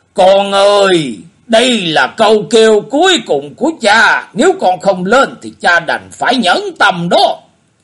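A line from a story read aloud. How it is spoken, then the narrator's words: Loud calling. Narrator (Vietnamese): Quái nhân lại lớn tiếng kêu gọi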